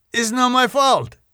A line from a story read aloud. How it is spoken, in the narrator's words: he blurted out